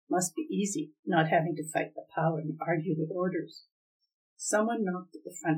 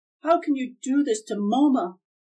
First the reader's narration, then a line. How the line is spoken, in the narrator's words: Kay shouted